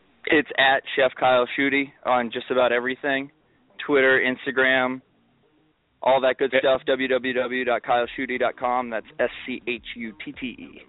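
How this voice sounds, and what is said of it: Announcer-style radio voice. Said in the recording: “That was my radio voice.”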